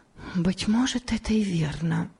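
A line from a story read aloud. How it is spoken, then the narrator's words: Whispering to herself. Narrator (Russian): прошептала про себя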